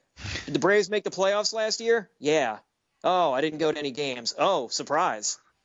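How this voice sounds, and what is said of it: Imitates an Atlanta sports fan. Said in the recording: “That's my impersonation of an Atlanta sports fan.”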